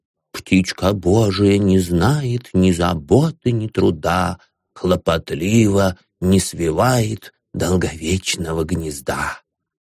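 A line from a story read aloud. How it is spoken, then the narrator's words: Whisper. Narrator (Russian): прошептал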